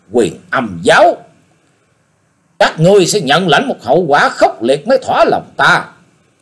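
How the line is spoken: Sharp hiss. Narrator (Vietnamese): Kim Hoa Điển Mẫu rít mạnh

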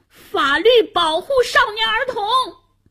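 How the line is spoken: Struggling shout. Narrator (Chinese): 夏楠挣扎着喊道

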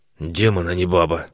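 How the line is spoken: Muttering. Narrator (Russian): бормотал он

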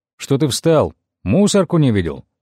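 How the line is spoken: Angry call. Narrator (Russian): сердито окликнул меня Тимур

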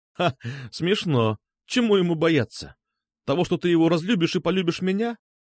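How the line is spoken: Laughing. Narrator (Russian): Катя засмеялась

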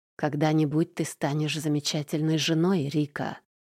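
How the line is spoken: Tender murmur close to ear. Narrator (Russian): ласково звучит мне в висок

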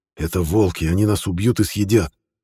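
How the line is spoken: Whispering in ear. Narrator (Russian): зашептал ему на ухо Нормер

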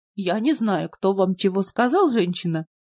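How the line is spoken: Indifferent phlegmatic drone. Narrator (Russian): Равнодушно прогудела сидевшая в справочной Склифа объемная фемина, комплекцией и флегматичностью напоминавшая женскую особь бегемота

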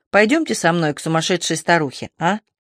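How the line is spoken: Laughing. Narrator (Russian): Она засмеялась

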